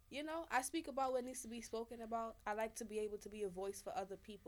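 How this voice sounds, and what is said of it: Slight Jamaican accent. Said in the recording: “a little bit of an accent. ... Jamaica.”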